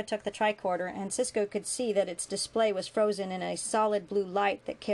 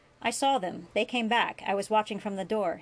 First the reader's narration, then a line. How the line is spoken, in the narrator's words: said